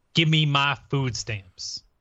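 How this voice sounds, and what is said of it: Speaks in a put-on accent. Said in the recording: “Why do you have to use that accent?”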